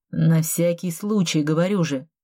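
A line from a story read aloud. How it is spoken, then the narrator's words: Grumbling. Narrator (Russian): буркнул он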